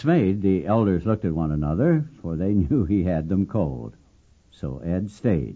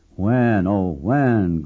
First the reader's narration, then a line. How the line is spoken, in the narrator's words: groaned members to one another